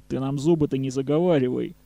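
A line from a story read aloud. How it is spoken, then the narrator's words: Gloomy reply. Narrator (Russian): мрачно ответил Лёха Сергеев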